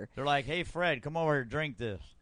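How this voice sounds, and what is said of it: Put-on redneck accent. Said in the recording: “your African accent? ... No, that's my redneck. That's my redneck accent.”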